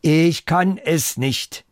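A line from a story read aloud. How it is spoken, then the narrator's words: Loud. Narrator (German): Und laut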